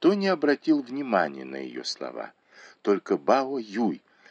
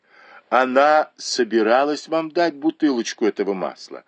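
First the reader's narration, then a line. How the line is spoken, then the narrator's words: Laughing. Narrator (Russian): засмеялась Даюй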